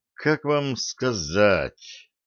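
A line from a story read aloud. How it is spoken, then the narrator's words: Drawling, slightly embarrassed. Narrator (Russian): протянул поручик, чуточку стыдясь собственного лицедейства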